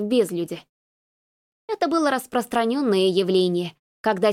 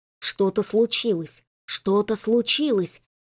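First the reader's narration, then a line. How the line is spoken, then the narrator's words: Cowardly inner whisper. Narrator (Russian): зашептал в голове трус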